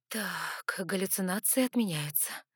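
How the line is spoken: Relieved exhale. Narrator (Russian): облегченно выдохнула я, обнаружив, что все время сдерживала дыхание

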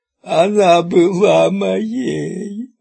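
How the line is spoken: Sobbing. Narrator (Russian): разрыдался Шеп

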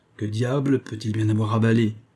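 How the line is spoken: Grumbled to himself. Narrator (French): grogna le chef en monologuant, selon son habitude de solitaire

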